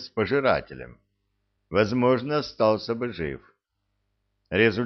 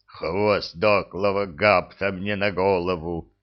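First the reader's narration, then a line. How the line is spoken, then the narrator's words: Moaning. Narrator (Russian): простонал Храд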